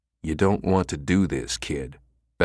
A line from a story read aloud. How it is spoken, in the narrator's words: Becker said quietly